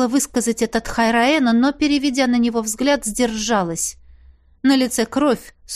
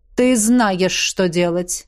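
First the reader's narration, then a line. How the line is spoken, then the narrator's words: Commanding demon. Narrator (Russian): приказным тоном сказал демон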